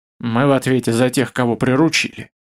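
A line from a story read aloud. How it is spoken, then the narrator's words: Quiet mutter. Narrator (Russian): тихо пробормотал Маслов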